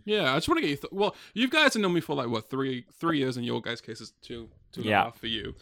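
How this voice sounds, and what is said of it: Non-American, heavy British-sounding accent. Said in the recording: “You don't sound American ... at all ... I thought you were British ... I would have said like, yeah, like heavy British accent”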